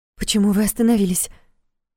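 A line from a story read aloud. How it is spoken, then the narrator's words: Frightened question. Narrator (Russian): испуганно спросила Федорова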